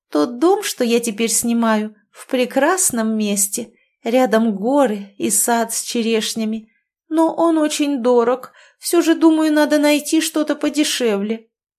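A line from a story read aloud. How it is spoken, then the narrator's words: Sudden cooing. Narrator (Russian): вдруг проворковала Красовская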